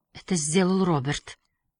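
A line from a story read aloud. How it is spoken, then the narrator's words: Barely audible girl's whisper. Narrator (Russian): едва слышно прошептала девушка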